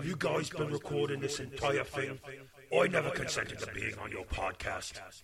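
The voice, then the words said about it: Bad put-on Cockney accent. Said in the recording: “an offensively bad Cockney accent”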